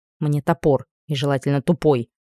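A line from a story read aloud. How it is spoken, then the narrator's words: Grumbled reply. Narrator (Russian): буркнула я в ответ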